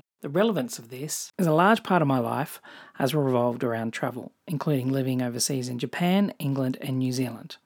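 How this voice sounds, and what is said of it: Australian accent. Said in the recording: “If you can't tell from my accent, I'm Australian”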